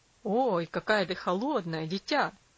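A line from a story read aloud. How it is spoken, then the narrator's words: Exclaiming father. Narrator (Russian): воскликнул отец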